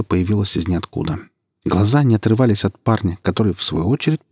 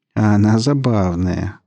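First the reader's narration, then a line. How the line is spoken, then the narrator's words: Drawling. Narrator (Russian): протянул парень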